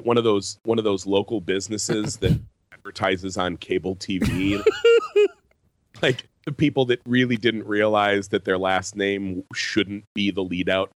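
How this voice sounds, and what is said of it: Congested, sick-sounding voice. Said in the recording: “tell from my voice, ... I'm a little verklempt in the chest ... We're very mucus. We're two just big mucus boys today.”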